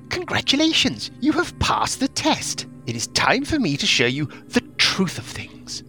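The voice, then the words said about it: Character voice of a magic mouth. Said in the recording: “Is that a Hesty Testipod accent? ... It sounded like it was Hesty Testipod.”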